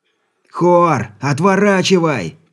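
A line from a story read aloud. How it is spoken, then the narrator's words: Shouting. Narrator (Russian): прокричал Алексей, видя, что судно нацелилось на очередную жертву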